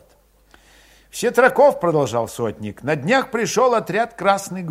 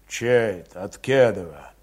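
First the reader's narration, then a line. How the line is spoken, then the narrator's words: Deep bass voice. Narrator (Russian): забасил Христоня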